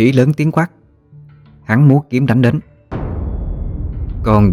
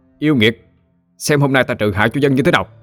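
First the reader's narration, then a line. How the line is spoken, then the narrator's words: Loud commanding shout. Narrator (Vietnamese): miệng quát lớn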